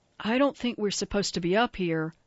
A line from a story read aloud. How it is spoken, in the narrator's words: Grover whispered